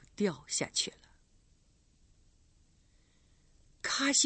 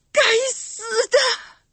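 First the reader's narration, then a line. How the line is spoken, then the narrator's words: Shouting. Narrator (Chinese): 神父喊了一声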